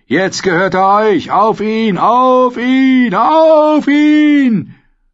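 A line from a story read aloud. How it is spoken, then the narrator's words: Group calling out. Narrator (German): Die Bruderschaft der Geächteten rief ihrem Anführer zu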